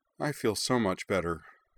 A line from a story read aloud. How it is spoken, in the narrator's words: said Emily, sagging wearily